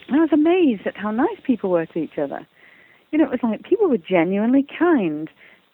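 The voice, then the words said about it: English accent. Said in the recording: “I was brought up in England, as you can hear by my accent”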